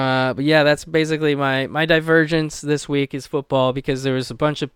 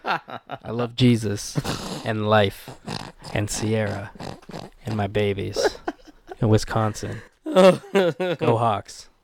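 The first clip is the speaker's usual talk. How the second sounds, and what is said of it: Imitates another person's voice. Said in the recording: “That's my Russell impression.”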